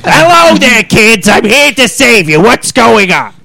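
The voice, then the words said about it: Countrified cartoon hero voice. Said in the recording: “I know the perfect voice for that character... I'll just steal from Patrick Walburton from, Emperor's New Groove... With a more countryfied accent.”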